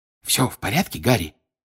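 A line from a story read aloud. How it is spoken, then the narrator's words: Whispered. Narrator (Russian): прошептал Бегман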